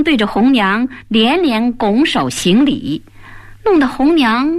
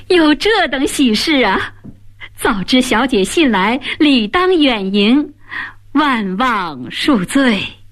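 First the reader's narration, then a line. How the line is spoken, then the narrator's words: Clapping, loud laughter. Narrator (Chinese): 张生突然拍掌大笑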